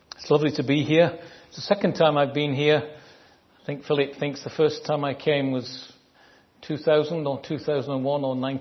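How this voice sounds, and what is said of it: Northern English Manchester accent. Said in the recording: “I speak a dialect of English called Northern. I'm from Manchester... It comes from the north of England.”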